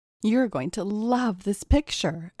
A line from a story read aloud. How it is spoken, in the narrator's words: exclaimed Kayla Holland